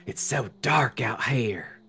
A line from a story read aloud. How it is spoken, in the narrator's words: whispered Kim